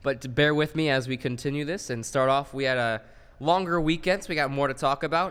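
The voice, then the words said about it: Muffled, sick-sounding voice. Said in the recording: “I am indeed sick, so my voice may be a little muffled throughout this podcast”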